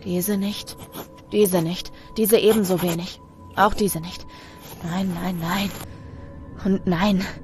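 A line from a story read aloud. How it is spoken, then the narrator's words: Murmured. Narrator (German): murmelt er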